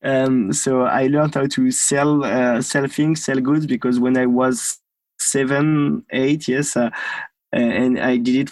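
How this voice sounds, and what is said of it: French accent. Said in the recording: “Your accent tells me you're French”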